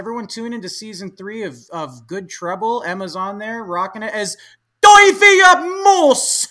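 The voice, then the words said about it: Vague British-Australasian put-on accent. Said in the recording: “What accent am I trying to pull off? ... You're somewhere between like British, New Zealand, and Australia, but I'm not confident in which.”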